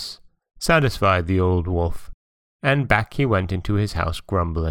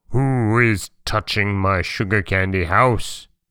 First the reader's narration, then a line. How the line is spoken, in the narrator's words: he roared